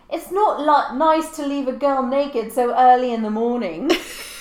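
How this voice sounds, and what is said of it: Character voice with put-on accent. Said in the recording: “I love your Rose accent. It's so good.”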